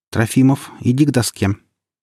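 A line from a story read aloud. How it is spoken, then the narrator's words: Even-voiced statement. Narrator (Russian): Она сказала ровным голосом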